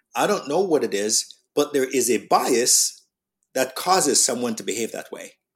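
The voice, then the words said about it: Jamaican English accent. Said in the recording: “my Jamaican accent”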